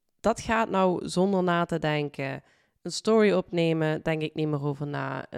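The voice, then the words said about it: Dutch with a Limburg accent. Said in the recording (Dutch): “Waar je mijn stem hoort ... vooral ook Limburgs accent natuurlijk”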